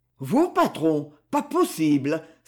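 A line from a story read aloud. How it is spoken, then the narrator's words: Exclaiming together. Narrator (French): s'écrièrent Bourgin et Denis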